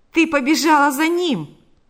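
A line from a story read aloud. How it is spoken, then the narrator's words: Exclaiming. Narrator (Russian): воскликнул Панас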